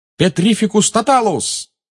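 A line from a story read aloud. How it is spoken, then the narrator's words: Shouted. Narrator (Russian): выкрикнул Гарри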